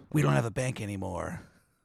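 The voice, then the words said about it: Mock ancient Greek voice. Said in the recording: “my impression of an ancient Greek”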